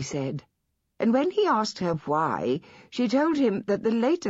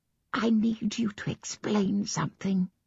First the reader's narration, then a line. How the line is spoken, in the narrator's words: she whispered